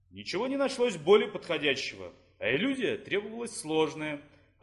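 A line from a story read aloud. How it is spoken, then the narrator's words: Plain. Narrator (Russian): ответил Фес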